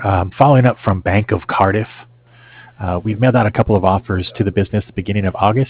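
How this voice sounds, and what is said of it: Strained, fading hoarse voice. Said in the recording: “I'm losing my voice”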